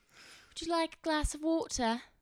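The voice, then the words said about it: Put-on British accent. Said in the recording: “talking in British accents ... I'd like to hear a British accent now.”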